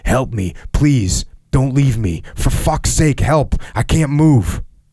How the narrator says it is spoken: groaning and shouting

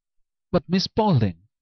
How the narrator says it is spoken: cried Walter de Vere, paler still with rage

